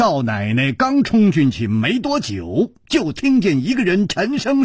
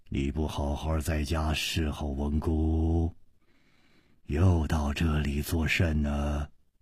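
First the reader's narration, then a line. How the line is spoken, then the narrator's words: Low commanding voice. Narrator (Chinese): 这个声音 低沉之中隐隐有微，一听那就知道是冠爷发号施令的人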